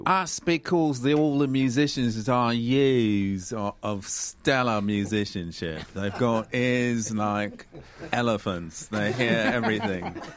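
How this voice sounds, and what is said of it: British accent. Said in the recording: “must have been a British accent because I didn't catch a word of what you just said there”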